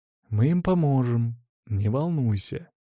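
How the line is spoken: Soothing. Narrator (Russian): произнес успокаивающим голосом

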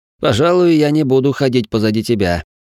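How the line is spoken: Laughing. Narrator (Russian): вроде посмеялся эльф

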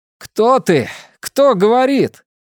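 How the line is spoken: Foolish-feeling shout. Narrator (Russian): Чувствуя себя полным идиотом, я крикнул

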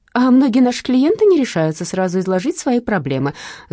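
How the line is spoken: Rote rapid chatter. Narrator (Russian): заученно тараторила секретарша

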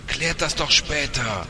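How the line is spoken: Another woman shouting. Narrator (German): schrie eine andere

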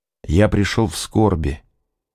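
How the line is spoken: Soft. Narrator (Russian): мягко сказал

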